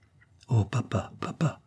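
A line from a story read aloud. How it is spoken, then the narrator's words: Child's plaintive murmur. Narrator (French): murmura de nouveau l'enfant d'un ton de voix plaintif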